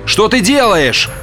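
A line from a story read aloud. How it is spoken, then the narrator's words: Shouting. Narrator (Russian): закричал Олхэм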